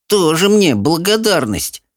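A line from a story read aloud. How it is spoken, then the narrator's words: Grumbling. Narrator (Russian): проворчала Софи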